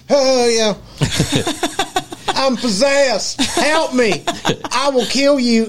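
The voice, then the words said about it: Exaggerated strong Southern accent. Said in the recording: “a good, strong Southern accent”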